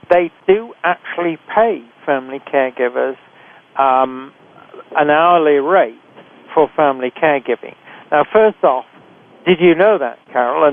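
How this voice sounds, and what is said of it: British accent. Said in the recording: “everybody can tell this from our accents, are both from Britain”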